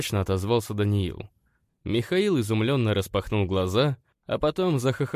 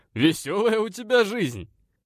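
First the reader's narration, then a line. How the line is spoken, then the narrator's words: Matter-of-fact after laughing. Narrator (Russian): констатировал, отсмеявшись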